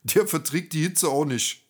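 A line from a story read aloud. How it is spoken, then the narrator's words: Laughing. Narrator (German): René lacht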